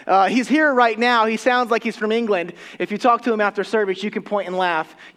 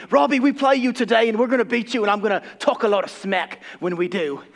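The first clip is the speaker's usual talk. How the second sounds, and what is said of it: Put-on English accent drifting Australian. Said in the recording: “all my accents just go back to Australian”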